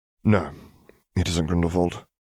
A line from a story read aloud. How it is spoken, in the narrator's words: he announced gravely